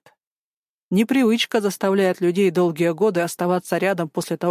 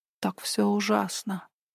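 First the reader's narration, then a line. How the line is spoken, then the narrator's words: Whispered into neck. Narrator (Russian): прошептала она ему в шею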